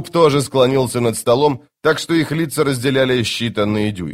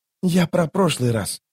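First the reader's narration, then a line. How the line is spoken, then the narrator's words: Whisper. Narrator (Russian): шепнул он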